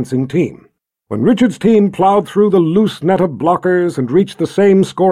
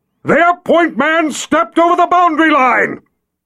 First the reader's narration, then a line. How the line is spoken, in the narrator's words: Jagang roared into the cold night air